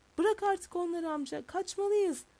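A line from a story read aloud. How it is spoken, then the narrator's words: Captain shouting. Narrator (Turkish): Kaptan bağırdı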